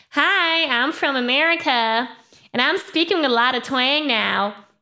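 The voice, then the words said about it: Imitated American twang, sharp bright. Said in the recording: “twang really basically is a very sharp, bright, and even ugly sound ... people who are from the US, they sometimes have an accent where twang is natural in their sound ... if I try to imitate that”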